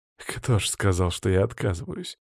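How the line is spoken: Smirking scoff. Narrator (Russian): хмыкнул я в ответ

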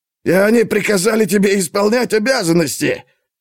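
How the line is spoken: Mocking guffaw. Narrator (Russian): Эрбот захохотал ему в лицо

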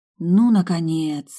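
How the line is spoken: Joyful sigh. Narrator (Russian): радостно вздохнула я

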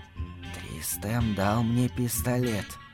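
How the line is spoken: Whisper. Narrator (Russian): прошептала

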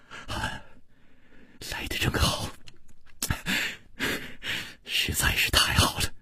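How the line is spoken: Soft, gentle. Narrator (Chinese): 楚留香……柔声说

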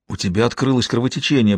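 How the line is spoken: Frightened whisper. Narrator (Russian): прошептала со страхом

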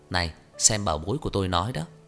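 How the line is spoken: Loud laughing voice. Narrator (Vietnamese): Trang Hạo Nhiên cười to lên

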